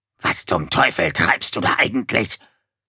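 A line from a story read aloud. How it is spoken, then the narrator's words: Hissing dog. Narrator (German): zischte der Hund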